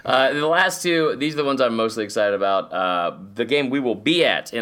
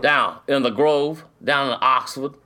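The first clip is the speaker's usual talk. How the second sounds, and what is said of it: Weak put-on Southern accent. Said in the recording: “I gotta work on that accent. Old Southern.”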